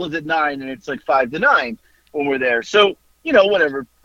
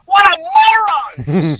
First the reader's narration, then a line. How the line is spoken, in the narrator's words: She screams it